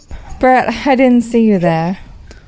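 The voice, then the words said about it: Put-on British accent. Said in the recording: “Now you're doing a British accent.”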